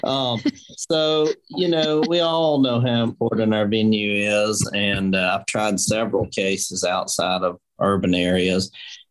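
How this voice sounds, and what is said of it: Southern Appalachian accent. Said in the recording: “I grew up in Rabun County, which is uh, northeast part of the state, the Appalachian foothills, and that's why I'm blessed with this accent.”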